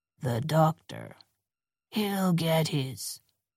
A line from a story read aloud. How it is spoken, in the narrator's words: Boyo murmured